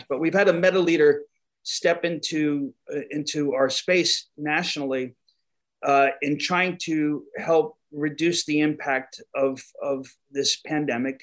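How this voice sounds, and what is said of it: New York accent. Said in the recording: “my New York accent comes into play sometimes”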